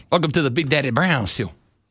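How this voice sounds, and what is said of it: Imitates another person's voice. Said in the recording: “I heard it in a Dusty Rhodes accent... That's better for me.”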